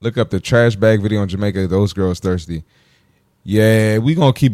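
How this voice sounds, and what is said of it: Usual voice. Nothing is said of it.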